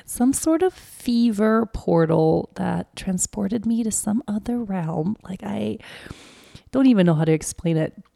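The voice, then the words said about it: Sick, under-the-weather voice. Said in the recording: “you can probably hear from my voice that I am a little bit under the weather”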